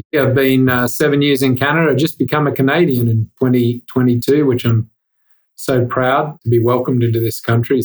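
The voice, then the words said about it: Australian accent. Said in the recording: “you can tell from my accent, I'm not from around this part of the woods... Everyone from Australia”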